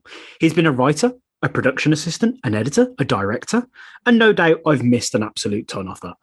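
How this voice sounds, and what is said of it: Speaks with a noticeable accent. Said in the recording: “with your accent, reading those lists of accomplishments sounds way more impressive”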